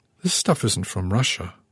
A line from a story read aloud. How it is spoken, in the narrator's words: I murmured, hearing my voice tremble